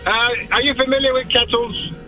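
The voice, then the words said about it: Put-on disguised caller voice. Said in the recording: “doing a voice”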